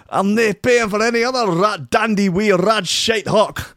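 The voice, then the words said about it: Poor put-on Scottish accent. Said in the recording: “My Scottish accent is terrible.”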